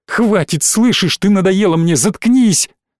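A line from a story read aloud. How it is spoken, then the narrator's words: Shouted. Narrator (Russian): закричала она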